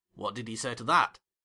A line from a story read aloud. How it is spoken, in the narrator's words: asked Philip